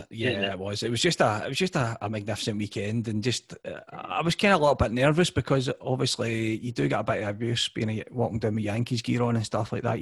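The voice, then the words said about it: West of Scotland accent. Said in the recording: “when they hear you're Scottish ... the kind of West of Scotland accent ... your Scottish accent”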